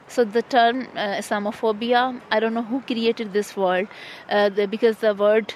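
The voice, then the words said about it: Strong non-native accent. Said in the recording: “my hard accent”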